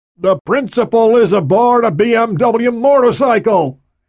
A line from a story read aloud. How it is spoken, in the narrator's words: shouted